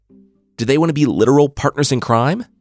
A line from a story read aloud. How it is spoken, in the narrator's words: He asked eagerly